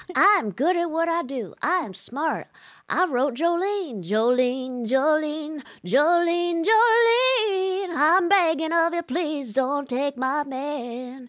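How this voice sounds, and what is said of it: Imitates another person's voice. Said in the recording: “it's like with Dolly, it's like ... the impression”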